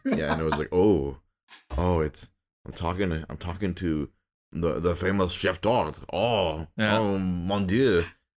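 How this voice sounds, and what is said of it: Put-on French accent. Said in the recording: “an even more outrageous French accent”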